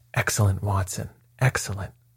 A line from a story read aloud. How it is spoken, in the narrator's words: murmured my companion